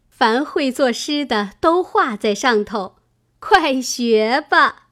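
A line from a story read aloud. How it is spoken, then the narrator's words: Laughing. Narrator (Chinese): 探春笑道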